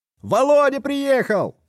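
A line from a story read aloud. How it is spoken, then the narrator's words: Shouted from outside. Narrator (Russian): крикнул кто-то на дворе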